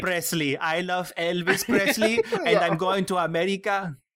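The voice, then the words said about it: Marisa Tomei's put-on Cuban accent. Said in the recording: “Marissa Tomei doing her Cuban accent is the most cringe thing I've ever heard.”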